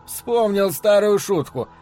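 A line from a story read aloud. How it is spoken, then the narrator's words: Laughing, nervous. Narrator (Russian): ответил Луис, продолжая смеяться, несмотря на испуг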